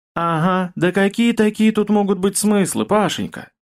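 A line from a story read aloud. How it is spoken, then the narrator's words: Loud sigh, woman. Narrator (Russian): Громко вздохнула Зинаида Тимофеевна, наш главный агроном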